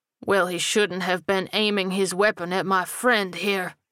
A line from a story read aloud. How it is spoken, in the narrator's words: Rufus growled